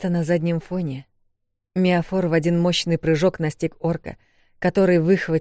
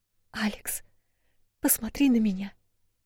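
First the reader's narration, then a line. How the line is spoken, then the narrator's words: Woman whispering. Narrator (Russian): шептала она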